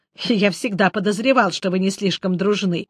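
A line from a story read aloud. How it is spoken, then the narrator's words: Snort. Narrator (Russian): хмыкнул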